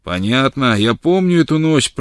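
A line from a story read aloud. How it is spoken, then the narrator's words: Booming voice. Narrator (Russian): прогремел он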